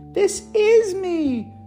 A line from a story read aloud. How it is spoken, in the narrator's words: May exclaimed